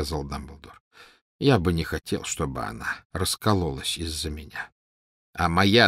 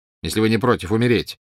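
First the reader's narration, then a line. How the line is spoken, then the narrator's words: Sharp. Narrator (Russian): резко сказал Снег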